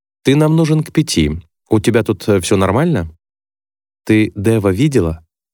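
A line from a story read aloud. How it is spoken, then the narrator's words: Trying to sound calm. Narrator (Russian): Чарли хочется, чтобы вопрос прозвучал спокойно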